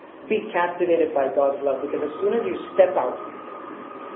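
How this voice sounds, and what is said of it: Usual voice. Nothing is said of it.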